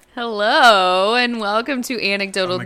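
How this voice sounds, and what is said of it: Very loud, too close to microphone. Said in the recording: “You said that so loudly. ... you're like eating the microphone.”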